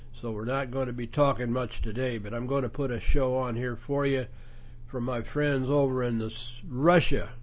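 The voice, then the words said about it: Congested, head-cold voice. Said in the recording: “I've got a head cold that's from hell”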